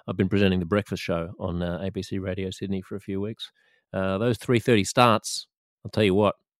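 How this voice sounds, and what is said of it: Slightly hoarse voice. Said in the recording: “a little bit hoarse today”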